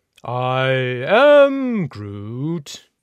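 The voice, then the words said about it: Imitates talking tree character voice. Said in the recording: “That's a pretty good impression.”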